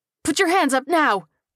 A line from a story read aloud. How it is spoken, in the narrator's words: screamed